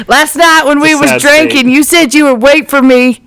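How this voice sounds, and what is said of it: Put-on accent, done well. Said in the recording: “You've got that accent down. ... It's pretty good.”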